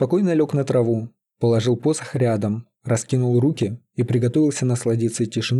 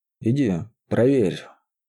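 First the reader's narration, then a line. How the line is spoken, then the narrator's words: Sleepy demand, mage. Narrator (Russian): сонно потребовал маг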